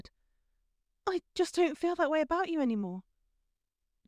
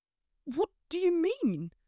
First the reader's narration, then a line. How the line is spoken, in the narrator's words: He sputtered